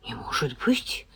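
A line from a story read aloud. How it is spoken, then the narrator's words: Mutter. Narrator (Russian): пробормотала я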